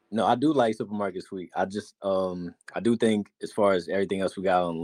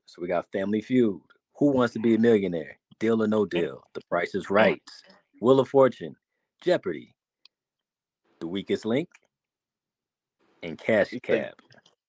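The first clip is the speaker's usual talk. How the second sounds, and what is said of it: Game show announcer voice. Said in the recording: “How you say Jeopardy like that? Jeopardy. ... is that like your announcer voice?”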